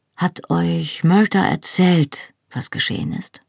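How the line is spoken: Hesitant question. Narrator (German): fragte zögernd

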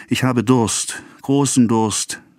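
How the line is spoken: Sighing. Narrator (German): seufzte

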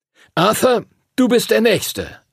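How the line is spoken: Call. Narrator (German): rief Master Duncan

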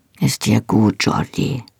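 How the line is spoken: Rough voice turned gentle. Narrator (German): sagte, seine raue Stimme war plötzlich sanft

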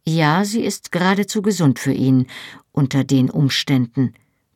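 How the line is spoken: Cold agreement. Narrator (German): pflichtete ich ihm mit kalter Stimme bei

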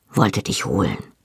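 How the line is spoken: Soft. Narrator (German): sagte er leise

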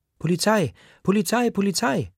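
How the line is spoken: Child screaming. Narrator (German): schreit ein Kind

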